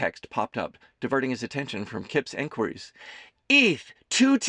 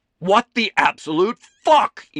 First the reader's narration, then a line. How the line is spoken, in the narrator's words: shouted to no one and everyone from his soundproof house